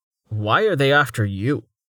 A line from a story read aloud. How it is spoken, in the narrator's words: Velika snorted